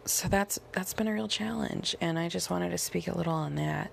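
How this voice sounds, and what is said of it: Strained, worn-out voice. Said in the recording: “my voice is kind of dying”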